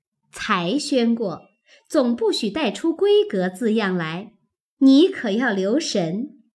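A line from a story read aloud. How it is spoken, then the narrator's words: Laughing. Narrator (Chinese): 笑道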